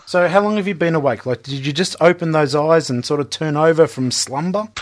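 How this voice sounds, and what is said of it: Non-American accent. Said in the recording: “if my accent beguiles you at any stage or bewilders you more to the point ... I'll try to do an American accent”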